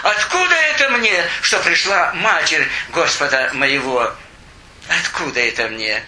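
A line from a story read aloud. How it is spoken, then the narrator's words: Exclaiming. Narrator (Russian): воскликнула к ней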